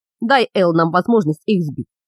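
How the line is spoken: Calm. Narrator (Russian): спокойно сказал Леган

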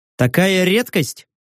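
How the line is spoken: Wry snort. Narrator (Russian): хмыкнул

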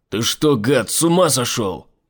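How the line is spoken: Shouted. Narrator (Russian): прокричал Айзек

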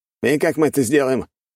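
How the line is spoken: Snorted. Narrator (Russian): хмыкнул Лерок

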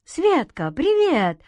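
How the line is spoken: Joyful exclamation. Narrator (Russian): радостно воскликнул Антон

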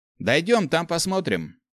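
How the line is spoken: Snorting. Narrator (Russian): хмыкнул Гоша

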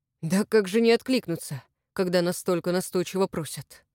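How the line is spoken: Grumbling. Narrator (Russian): проворчал Иван Леонидович

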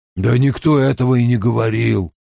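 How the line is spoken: Grumbling man. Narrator (Russian): пробурчал мужчина со сломанным носом

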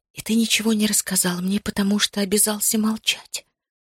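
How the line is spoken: Whispered. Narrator (Russian): прошептала я

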